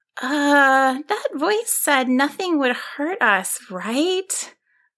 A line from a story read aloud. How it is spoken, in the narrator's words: Aurora asked in a worried voice